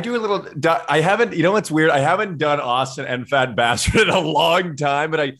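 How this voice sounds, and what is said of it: Usual voice. Nothing is said of it.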